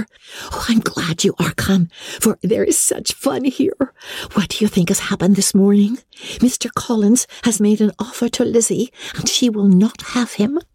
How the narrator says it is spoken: Lydia, who, flying to her, cried in a half-whisper

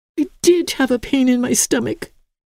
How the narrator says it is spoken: wailed Emily, in whom fright and mustard and water combined had temporarily extinguished all spirit

